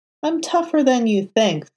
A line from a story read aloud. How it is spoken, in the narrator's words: Foggy declared